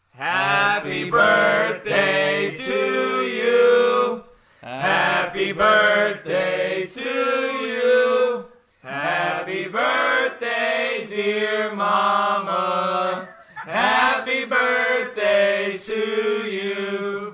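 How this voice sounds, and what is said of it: Singing in a country accent. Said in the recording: “Say it in the country accent.”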